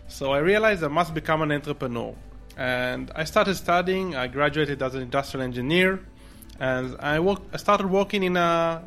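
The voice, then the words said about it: Israeli-accented English. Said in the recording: “based on my accent, you probably recognize that I'm originally from Israel”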